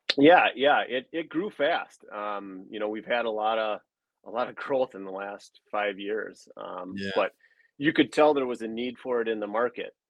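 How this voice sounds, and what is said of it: Northern Wisconsin accent. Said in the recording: “maybe based on my accent, I'm from Rylander, so northern Wisconsin.”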